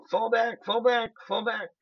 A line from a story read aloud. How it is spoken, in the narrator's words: they start screaming, and they go